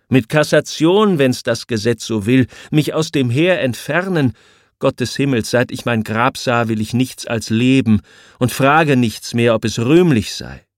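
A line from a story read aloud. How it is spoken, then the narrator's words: Exclaiming. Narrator (German): ruft der Prinz von Homburg aus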